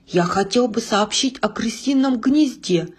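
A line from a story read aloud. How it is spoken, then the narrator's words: Quiet speech. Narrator (Russian): негромко сказал Живодыр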